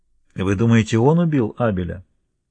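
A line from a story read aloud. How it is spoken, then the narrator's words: Plain. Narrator (Russian): спросил Паппи Раймонд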